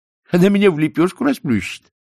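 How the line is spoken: Cheerful. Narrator (Russian): весело сообщил он

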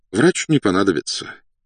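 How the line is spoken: Sighing. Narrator (Russian): вздохнул подполковник

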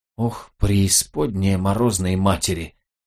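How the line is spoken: Breathed out. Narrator (Russian): выдохнул Гэб

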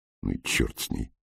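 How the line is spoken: Muttered. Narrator (Russian): пробормотал Нейт

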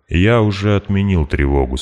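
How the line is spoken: Calm. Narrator (Russian): спокойно сказал он

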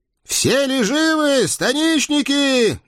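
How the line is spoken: Loud, flushed from battle. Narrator (Russian): громко спросил Василий Дмитриевич, раскрасневшийся с бою

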